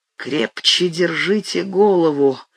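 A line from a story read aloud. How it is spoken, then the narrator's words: Hoarse command. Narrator (Russian): хрипло скомандовал я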